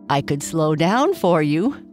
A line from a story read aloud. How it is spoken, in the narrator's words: Sparkles said, laughing